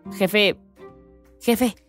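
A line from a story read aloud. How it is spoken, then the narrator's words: Pirate whispering. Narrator (Spanish): susurró uno de los piratas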